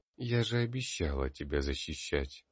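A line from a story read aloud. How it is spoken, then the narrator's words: Familiar female whisper. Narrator (Russian): знакомый женский голос прошептал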